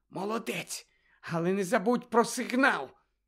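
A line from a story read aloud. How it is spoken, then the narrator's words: Whisper. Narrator (Ukrainian): Герміона прошепотіла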